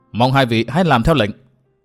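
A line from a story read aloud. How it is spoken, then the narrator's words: Stern, interrupting. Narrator (Vietnamese): Từ Mã Minh đã khoát tay nghiêm giọng nói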